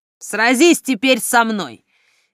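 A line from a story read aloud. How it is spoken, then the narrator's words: Beastly growl. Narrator (Russian): Рох обернулся в зверя и зарычал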